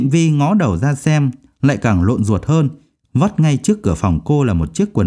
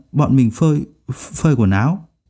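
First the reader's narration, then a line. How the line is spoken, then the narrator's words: Startled stammering. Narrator (Vietnamese): anh chàng kia cũng giật bắn mình, ấp úng nói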